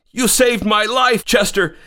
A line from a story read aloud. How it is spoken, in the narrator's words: exclaimed Thomas